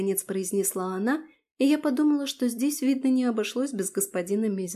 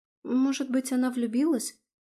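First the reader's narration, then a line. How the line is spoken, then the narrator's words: Timid suggestion. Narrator (Russian): робко предположила Таня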